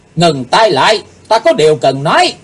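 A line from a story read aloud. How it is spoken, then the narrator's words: Shouting. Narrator (Vietnamese): Chàng nắng trầm rồi quát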